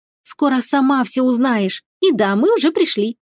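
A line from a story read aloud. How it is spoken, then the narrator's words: Niece, happy, smiling. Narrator (Russian): радостно улыбнулась племянница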